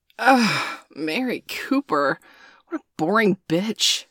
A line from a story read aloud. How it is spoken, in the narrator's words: Danielle scoffed